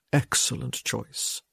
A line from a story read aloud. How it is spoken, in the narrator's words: he murmured